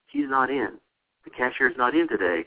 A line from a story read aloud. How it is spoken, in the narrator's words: he says calmly